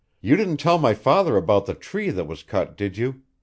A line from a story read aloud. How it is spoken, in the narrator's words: demanded sharply